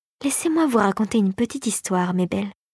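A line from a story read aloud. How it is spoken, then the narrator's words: Whispered. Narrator (French): chuchota-t-elle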